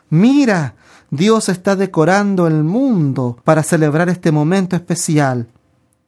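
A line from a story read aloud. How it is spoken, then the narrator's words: Delighted exclamation. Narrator (Spanish): Mientras se deleitaban en la belleza que tenían entre sí, exclamó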